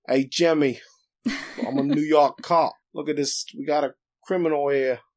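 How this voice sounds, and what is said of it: Thick put-on Brooklyn accent. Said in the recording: “he has this thick, like, Brooklyn accent”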